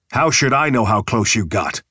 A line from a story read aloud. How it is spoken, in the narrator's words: Cage snapped